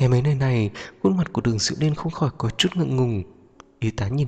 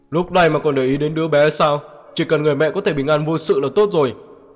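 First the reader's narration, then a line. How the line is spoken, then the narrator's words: Displeased deep-voiced shout. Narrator (Vietnamese): Uốn chết không vui trầm giọng quát lên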